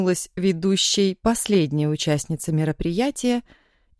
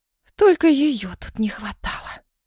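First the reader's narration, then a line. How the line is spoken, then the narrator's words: Hissed through teeth. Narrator (Russian): Прошипела сквозь зубы Ира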